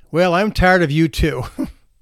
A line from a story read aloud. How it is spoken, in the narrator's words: he replied very loudly